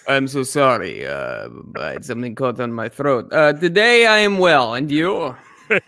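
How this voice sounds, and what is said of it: Put-on Russian-sounding accent. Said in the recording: “Where's your accent from? ... Is it Russian? ... sounds Russian? Maybe from Ukraine.”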